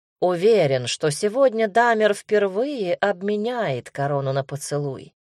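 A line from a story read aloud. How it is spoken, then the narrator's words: Plain. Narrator (Russian): сказал Мигель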